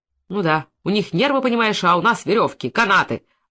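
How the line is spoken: Grumbling. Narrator (Russian): ворчал Иван, уходя

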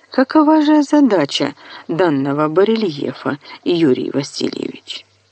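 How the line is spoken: Plain. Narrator (Russian): спросила Зотова

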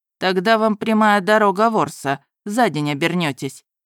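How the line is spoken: Dry reply. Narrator (Russian): сухо ответил продавец

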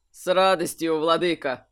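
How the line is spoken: Laughing. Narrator (Russian): рассмеялся верховный маг

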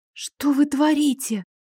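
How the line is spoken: Hoarse breathy. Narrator (Russian): хрипло выдохнула я

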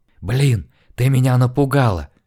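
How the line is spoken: Furious whisper. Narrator (Russian): яростным шепотом обругала я тетку

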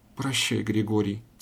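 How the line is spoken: Quiet farewell. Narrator (Russian): тихо промолвила она в темноту

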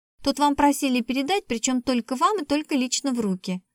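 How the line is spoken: Rapid chatter. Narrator (Russian): затараторила Светка

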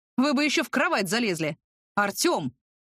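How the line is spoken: Indignant gasp, relieved. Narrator (Russian): Возмущенно ахнул дядя Вася, не без облегчения

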